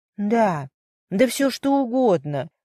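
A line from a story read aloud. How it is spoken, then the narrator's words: Sad reply. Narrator (Russian): грустно ответил Майкл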